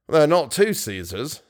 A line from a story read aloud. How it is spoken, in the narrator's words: said the stud groom dryly